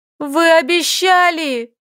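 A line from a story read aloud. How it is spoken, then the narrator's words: Angry tearful shout. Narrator (Russian): Вытирая злые слезы, прокричала она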